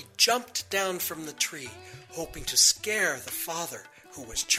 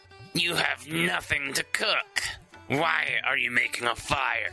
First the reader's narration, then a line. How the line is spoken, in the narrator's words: the troll snarled